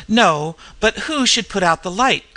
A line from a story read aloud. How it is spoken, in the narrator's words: cried Henderson